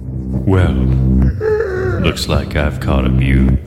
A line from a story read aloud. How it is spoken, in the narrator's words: said in a deep voice that echoed off the metal walls